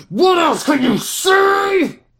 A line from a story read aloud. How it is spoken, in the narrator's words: George screamed